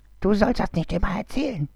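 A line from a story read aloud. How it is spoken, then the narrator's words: Angry hiss, large snake. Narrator (German): zischte ärgerlich die große Schlange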